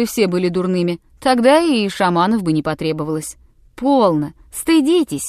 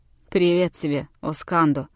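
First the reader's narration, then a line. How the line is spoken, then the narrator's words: Hesitant grumble. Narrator (Russian): проворчал Клок-Нотон, видимо, колеблясь и не зная, какой его ждет прием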